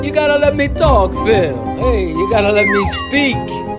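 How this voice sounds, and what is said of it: Put-on Italian accent. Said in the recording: “I love your Italian accent”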